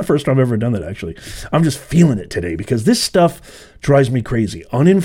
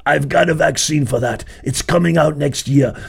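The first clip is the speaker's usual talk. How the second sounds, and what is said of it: Imitates another person's voice. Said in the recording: “my Fauci impression”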